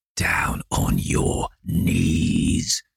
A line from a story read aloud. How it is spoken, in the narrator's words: growled the man